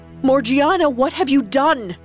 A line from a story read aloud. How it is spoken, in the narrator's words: Ali Baba screamed, in disbelief and horror